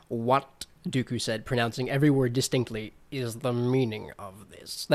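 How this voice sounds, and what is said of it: Imitates a film character's voice. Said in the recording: “my Severus Snape impression”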